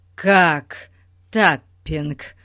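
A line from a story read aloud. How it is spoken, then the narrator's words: Sudden shocked exclamation. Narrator (Russian): воскликнул вдруг потрясенный мистер Гун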